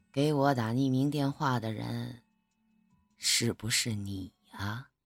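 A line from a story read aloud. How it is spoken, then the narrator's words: Low, pressing. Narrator (Chinese): 沈树低声的说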